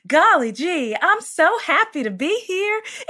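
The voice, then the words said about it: Country-accented princess voice. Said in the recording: “the princess voice... My princess had like a country accent”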